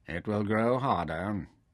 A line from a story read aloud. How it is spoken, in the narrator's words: Taita assured him dryly